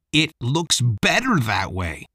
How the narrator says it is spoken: Mike shouted

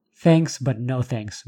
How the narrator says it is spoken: Marjorie said

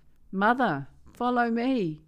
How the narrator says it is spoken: Abby called out

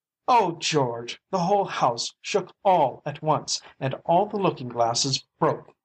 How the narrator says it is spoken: wailed his mother

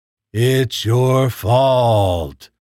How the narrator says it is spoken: he said in a terrifying robotic voice

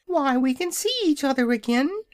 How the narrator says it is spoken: cried joyfully

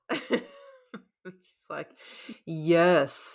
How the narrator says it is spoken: she said through gritted teeth

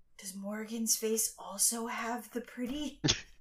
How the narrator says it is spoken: Piper's going to like whisper

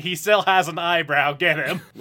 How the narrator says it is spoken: yelling

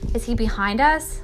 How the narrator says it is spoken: Sistine asked breathlessly

